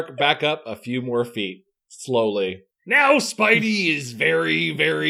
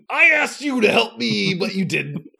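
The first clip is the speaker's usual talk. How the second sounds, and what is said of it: Snarling monster character voice. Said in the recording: “I'm trying to do this voice. I don't do voices well ... Spider snarls ... the monster growls”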